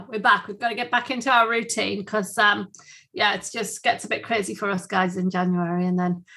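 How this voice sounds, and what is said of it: Usual voice. Nothing is said of it.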